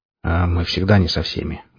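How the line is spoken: Curt grumble. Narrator (Russian): буркнул я

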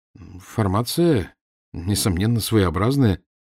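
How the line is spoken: Uncertain, hesitant. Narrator (Russian): неуверенно начал я

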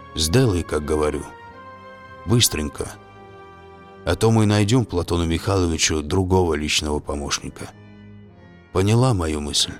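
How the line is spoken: Whisper. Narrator (Russian): Ларри прошептал

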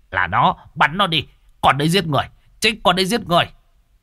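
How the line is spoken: Shout. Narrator (Vietnamese): Thằng Việt Gian hét lên một tiếng

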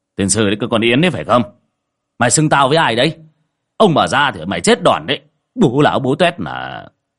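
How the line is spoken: Annoyed shout. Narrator (Vietnamese): Ông hướng ra ngoài cửa sổ sau vườn mà bực mình quát

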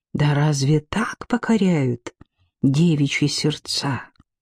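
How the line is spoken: Whispered. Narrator (Russian): Шепнула она худому

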